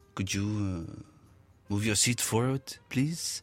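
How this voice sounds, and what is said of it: Put-on Greek accent. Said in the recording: “he's Greek, as you can tell from the accent ... He sounds French.”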